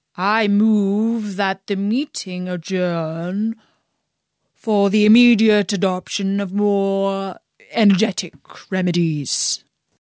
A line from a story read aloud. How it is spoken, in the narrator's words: said the dodo, solemnly